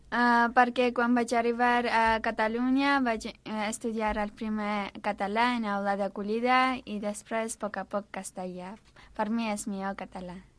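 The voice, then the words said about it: Armenian accent speaking Catalan. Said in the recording (Catalan): “aquest accent tan bonic, d'on surt? ... Soc d'Armènia.”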